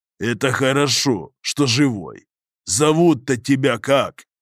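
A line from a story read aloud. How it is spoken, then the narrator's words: Deafening bark. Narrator (Russian): он вдруг оглушительно рявкнул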